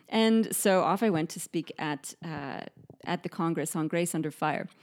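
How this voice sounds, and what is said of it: Canadian accent. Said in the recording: “my accent really is still quite Canadian here ... I can't quite get the pronunciation ... the AR sound properly in Australian pronunciation”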